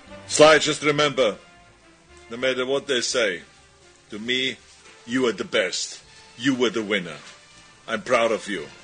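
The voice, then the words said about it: Thick foreign accent. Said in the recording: “How can the accent be getting thicker? ... It has been since day one. Getting worse. Deteriorating.”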